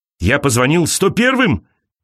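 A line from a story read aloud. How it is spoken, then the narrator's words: Shouting. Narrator (Russian): кричал он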